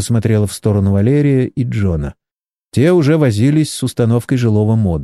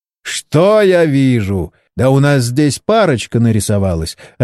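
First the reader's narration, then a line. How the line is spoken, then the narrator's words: Loud laughter. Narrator (Russian): расхохотался Борис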